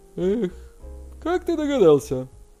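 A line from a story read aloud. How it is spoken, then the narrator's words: Exclamation. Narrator (Russian): воскликнул Хань Гуан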